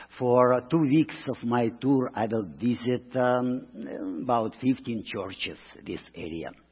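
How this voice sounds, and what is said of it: Russian-Brooklyn accented English. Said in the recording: “Can you hear my accent? ... it is not a Brooklyn accent only. It is Russian Brooklyn, a little complicated”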